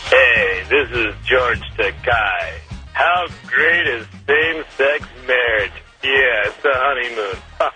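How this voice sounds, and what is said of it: Poor imitation of another person's voice. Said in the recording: “That's not a very good impression ... That was a terrible impression.”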